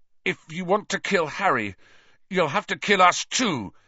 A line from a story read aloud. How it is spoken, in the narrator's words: he said fiercely, though the effort of standing up had drained him of still more colour, and he swayed slightly